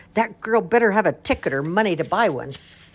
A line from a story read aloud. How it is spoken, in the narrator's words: yelled a man in a uniform